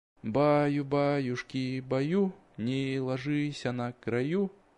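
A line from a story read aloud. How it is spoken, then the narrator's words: Soft singing. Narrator (Russian): тихонько напевала дверь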